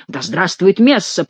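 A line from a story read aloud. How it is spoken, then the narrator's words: Growled. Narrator (Russian): прорычал Гранфло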